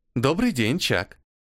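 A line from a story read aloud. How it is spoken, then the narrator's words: Pleasant female computer voice. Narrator (Russian): поздоровался рабочий компьютер приятным женским голосом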